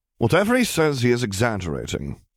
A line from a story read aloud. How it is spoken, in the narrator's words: Remus said smoothly